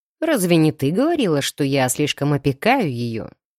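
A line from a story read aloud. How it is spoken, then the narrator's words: Snorting. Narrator (Russian): хмыкнул оборотень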